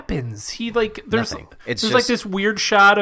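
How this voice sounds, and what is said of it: Usual voice. Nothing is said of it.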